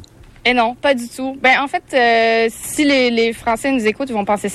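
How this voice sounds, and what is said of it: Obvious Quebec French accent. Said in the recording (French): “tu as un accent québécois évident”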